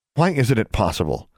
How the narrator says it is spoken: Alexandra snapped

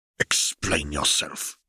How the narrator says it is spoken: Snape snarled

